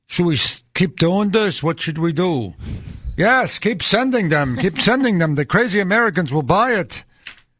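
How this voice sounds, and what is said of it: Put-on Eastern European accent. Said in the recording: “I don't know what accent that was ... Bulgaria”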